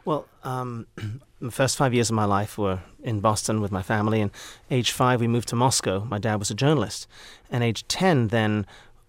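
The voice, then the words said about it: British English accent. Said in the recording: “Everybody assumes you're British ... my formative years were in England, and I think the accent is here to stay”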